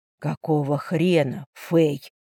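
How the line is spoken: Angry male hissing. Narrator (Russian): Зло прошипел он

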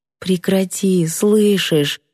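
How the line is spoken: Pleading whisper. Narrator (Russian): прошептала не без мольбы

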